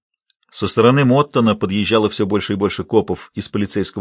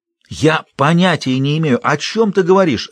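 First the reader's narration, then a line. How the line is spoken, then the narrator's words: Almost shouting. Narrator (Russian): Ренни чуть не кричал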